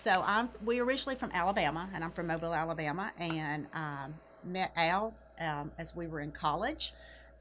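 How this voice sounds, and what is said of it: Southern US accent. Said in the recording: “I'm from the South originally, as you could tell from my accent, and I'm from Alabama... Somebody say, "You're not from around here, are you?"”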